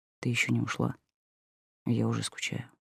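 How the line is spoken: Whisper. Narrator (Russian): шептал

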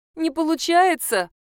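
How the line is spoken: Moaning. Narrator (Russian): простонала Мара

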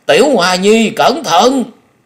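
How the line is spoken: Old man's scream. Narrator (Vietnamese): Lão kêu rú lên

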